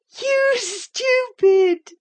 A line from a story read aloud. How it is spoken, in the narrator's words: screamed the girls